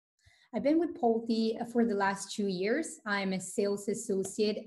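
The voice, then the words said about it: Italian accent. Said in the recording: “I noticed the accent. ... born and raised in Italy”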